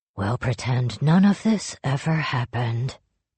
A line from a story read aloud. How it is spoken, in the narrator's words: Jujinta said into their ears, as gently as if he were crooning them to sleep